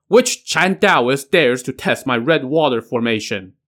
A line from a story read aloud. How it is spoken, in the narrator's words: he yelled